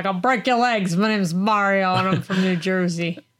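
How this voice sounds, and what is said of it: Put-on Mario-style New Jersey accent. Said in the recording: “my accents are like, ... they're spot on. ... It's like a Mario.”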